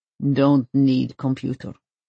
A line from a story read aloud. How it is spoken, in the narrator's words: he growls